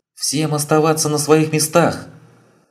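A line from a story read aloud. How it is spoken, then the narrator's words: Familiar female voice shouting. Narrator (Russian): прокричал очень знакомый женский голос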